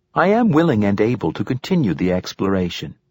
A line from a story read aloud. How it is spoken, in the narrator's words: chirped the bracelet